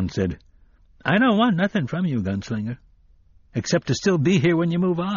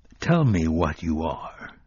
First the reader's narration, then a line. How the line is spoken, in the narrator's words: he said thickly